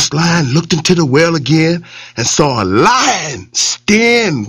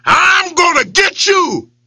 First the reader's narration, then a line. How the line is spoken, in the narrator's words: he yelled at it